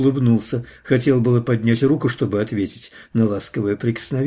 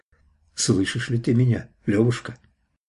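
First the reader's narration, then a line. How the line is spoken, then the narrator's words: Quiet question. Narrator (Russian): тихо спросил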